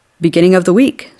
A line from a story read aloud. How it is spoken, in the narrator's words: said Pop